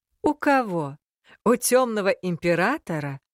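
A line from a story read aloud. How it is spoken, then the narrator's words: Laughing. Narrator (Russian): рассмеялся Альрос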